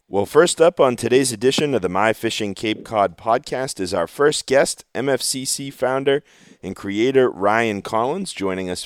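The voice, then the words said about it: Hoarse, slightly deeper voice. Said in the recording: “my voice sounds a little bit funky, no, I'm not sick... I just kind of woke up with a hoarse voice this morning, which is making it sound a, a little deeper... if I squeak or crack a little bit”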